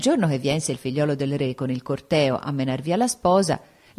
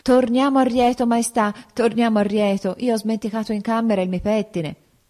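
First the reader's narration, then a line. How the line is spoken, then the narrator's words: Exclamation. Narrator (Italian): la sposa esclamò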